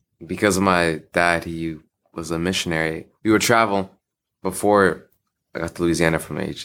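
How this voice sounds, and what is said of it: Good radio voice. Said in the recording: “You've got a good radio voice”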